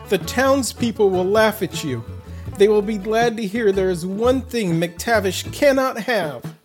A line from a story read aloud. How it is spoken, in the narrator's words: Gregor shouted out